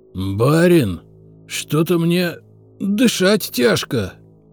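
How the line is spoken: Wheezed. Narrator (Russian): прохрипел

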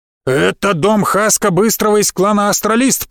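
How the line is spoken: Growling woman. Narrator (Russian): прорычала женщина

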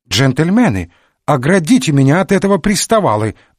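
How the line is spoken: Old woman exclaiming. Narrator (Russian): воскликнула старушка

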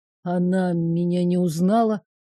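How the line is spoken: Shocked mutter. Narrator (Russian): Все еще, пребывая в шоке, пробормотал принц

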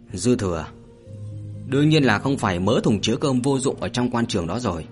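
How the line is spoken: Sharp snap. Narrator (Vietnamese): Hạ Vũ liền gắt

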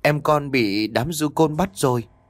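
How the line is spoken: Trembling. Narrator (Vietnamese): Cô run rẩy nói

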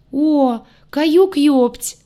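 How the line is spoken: Joyful young man exclaiming. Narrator (Russian): Радостно воскликнул незнакомый молодой мужчина

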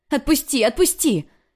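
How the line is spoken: Screaming in pain. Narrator (Russian): кричала, не скрывая боли

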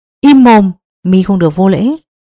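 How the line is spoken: Old man's shout. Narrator (Vietnamese): Bắc Sơn lão nhân quát lên

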